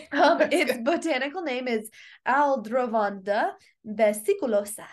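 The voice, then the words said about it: Latin-flavored accented pronunciation. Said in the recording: “accent ... It needs like a Latin flair.”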